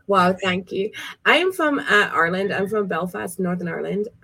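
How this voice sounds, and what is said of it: Mixed, inconsistent accent. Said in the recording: “Her accent's all over the place.”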